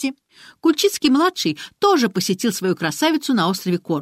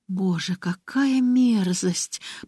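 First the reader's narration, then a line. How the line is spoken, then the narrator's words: Moaning. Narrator (Russian): простонала Ариадна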